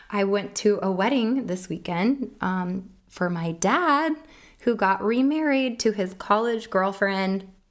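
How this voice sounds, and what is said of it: Hoarse voice. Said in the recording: “My apologies for my hoarse voice. It's kind of sexy, right?”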